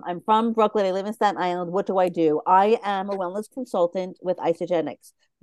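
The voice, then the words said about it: New York accent. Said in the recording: “I live in Staten Island, New York, and you can tell the accent. I literally just heard my accent.”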